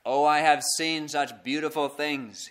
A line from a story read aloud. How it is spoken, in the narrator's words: exclaimed